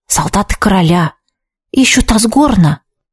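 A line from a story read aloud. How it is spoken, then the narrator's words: Whispered. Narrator (Russian): шепнул Витсар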